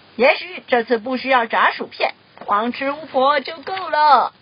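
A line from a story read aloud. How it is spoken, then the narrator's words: Loud dragon voice. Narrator (Chinese): 那只龙大声说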